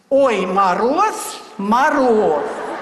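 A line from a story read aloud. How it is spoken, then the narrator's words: Loud trained singing. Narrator (Russian): громким поставленным голосом запел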